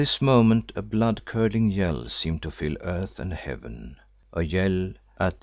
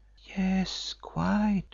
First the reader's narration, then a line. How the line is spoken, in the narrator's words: she whispered back